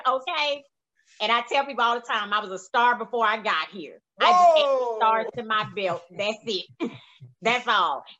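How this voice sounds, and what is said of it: Mississippi Southern US accent. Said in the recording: “I'm Mississippi to the core... My accent has not left.”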